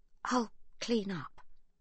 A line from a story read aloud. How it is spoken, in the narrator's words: Livy says quietly